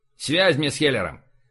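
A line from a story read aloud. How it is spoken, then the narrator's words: Irritated curt order. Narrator (Russian): раздраженно бросил Бель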